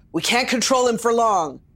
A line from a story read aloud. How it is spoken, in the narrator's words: Charles called out